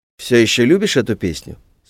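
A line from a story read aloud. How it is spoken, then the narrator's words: Plain. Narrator (Russian): спросил он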